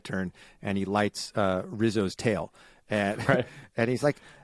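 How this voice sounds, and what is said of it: Usual voice. Nothing is said of it.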